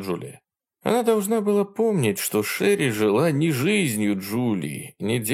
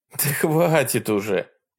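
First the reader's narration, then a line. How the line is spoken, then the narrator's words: Laughing. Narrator (Russian): рассмеялась Джулия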